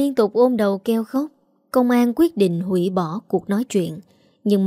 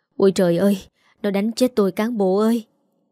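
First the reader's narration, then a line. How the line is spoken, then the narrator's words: Woman moaning. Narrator (Vietnamese): bà rên rỉ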